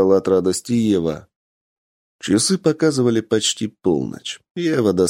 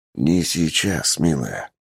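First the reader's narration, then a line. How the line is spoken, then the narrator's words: Whisper. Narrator (Russian): прошептал Рич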